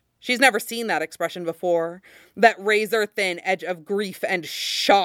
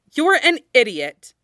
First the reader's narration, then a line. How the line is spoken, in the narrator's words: Zelda snaps at him